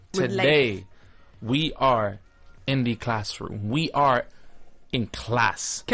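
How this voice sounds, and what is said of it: Shifting mixed put-on accents. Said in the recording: “Can our teacher please have one accent?”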